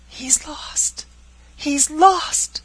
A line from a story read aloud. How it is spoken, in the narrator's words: cried Frances, sinking into the arms of her aunt